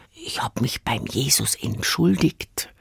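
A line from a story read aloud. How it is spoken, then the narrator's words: Whisper. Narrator (German): flüsterte er mir zu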